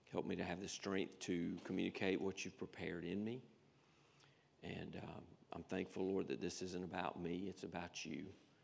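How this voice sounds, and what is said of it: Raspy, strained voice. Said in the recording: “help my voice ... a raspy voice”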